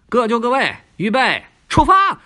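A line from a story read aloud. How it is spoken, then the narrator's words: Shouted. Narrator (Chinese): 小亚一喊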